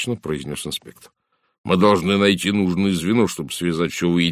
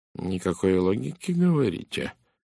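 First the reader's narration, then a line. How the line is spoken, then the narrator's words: Quiet. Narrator (Russian): тихо повторил Пуаро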